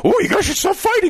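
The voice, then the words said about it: Cookie Monster character voice. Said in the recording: “in the Cookie Monster voice”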